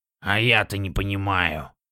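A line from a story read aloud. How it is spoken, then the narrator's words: Irritated snort. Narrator (Russian): раздраженно фыркнул Дворф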